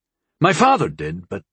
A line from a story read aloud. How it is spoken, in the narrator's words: He faltered